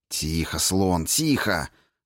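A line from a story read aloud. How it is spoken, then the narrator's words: Hissed reply. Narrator (Russian): зашипел в ответ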